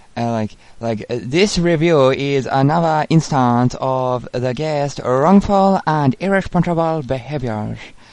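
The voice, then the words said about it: Put-on female Chinese accent. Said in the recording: “Do it in your Chinaman woman voice. ... In a female Chinese voice”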